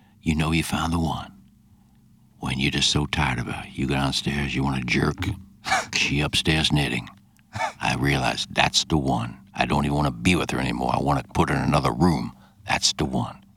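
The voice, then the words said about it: Stephen A. Smith impression. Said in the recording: “Not a bad impression ... Stephen A. Smith's view upon it.”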